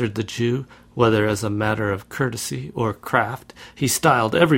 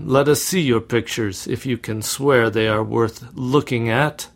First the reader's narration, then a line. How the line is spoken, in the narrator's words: cried one of the young men